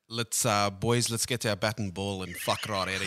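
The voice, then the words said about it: Thick South African accent. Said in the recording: “I'll drop the old thick South African accent. ... Give us some.”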